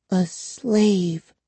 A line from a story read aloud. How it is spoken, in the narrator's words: she repeated in a trembling voice